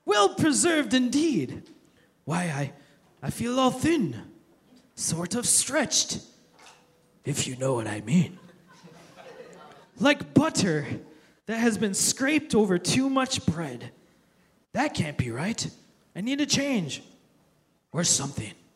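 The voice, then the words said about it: Put-on accent, not very convincing. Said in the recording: “I'm not very good at accents. If I do an accent long enough, I'll turn into Mario from Super Mario Brothers.”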